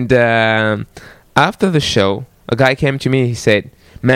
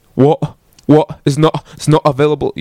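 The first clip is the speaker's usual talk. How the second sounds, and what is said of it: Put-on English accent, dropped T's. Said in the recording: “So I did my best to get an English accent ... you drop the T ... Okay, it's pretty good, yeah.”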